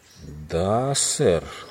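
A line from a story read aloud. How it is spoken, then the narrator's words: Slow reply. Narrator (Russian): ответил Фрэнк медленно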